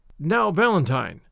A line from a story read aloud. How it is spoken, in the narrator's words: said